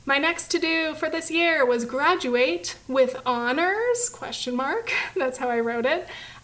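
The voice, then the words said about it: Hoarse, strained failing voice. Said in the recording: “My voice is really going. This is getting painful”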